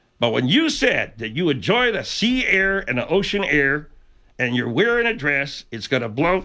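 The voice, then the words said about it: Very deep bass impression voice. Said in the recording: “It was me doing an impression ... You got to do these basso profundo impressions.”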